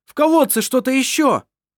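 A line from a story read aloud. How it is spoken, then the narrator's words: Shouting. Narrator (Russian): прокричал Вассар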